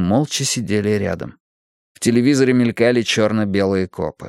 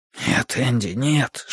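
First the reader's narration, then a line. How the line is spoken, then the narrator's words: Whisper. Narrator (Russian): шепнул я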